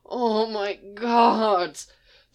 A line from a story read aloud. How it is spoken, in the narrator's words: There's a lot of rapid-fire moans of delight